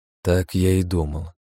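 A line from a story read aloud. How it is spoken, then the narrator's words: Sigh. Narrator (Russian): вздохнул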